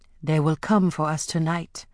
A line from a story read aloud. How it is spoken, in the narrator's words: Afi whispered to Amari